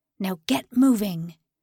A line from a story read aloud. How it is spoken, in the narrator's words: His voice was gruff